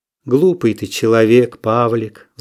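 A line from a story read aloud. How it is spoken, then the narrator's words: Sigh. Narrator (Russian): вздохнула Наташа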